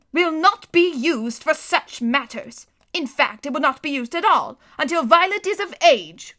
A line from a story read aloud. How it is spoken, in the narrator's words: said sternly